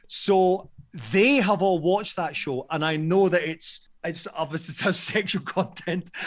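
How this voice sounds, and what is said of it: Usual voice. Nothing is said of it.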